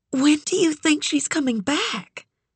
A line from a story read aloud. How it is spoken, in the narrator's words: whispered